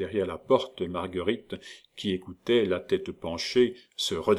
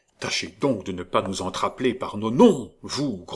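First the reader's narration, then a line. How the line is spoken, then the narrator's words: Clerk grumbling. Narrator (French): grommela le troisième clerc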